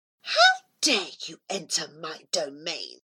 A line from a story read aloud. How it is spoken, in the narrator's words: she hissed